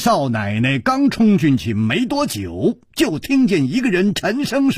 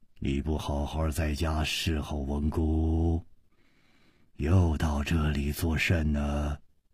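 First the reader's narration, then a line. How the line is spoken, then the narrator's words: Low commanding voice. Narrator (Chinese): 这个声音 低沉之中隐隐有微，一听那就知道是惯于发号施令的人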